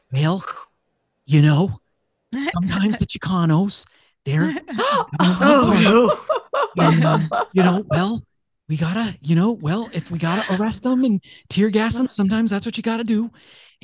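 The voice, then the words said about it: Breathy impression of an older politician. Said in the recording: “my Ronald Reagan impression ... That was pretty good ... Like a more breathy Nixon, apparently.”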